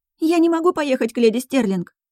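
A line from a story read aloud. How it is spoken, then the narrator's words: Babbling. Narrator (Russian): лепетала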